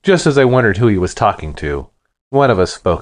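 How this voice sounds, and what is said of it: Usual voice. Nothing is said of it.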